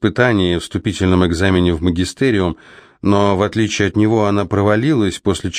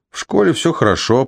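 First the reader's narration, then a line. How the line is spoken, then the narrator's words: Uncertain mumble. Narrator (Russian): буркнул, не зная, что еще сказать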